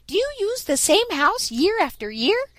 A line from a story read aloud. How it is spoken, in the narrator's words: piped up Striped Chipmunk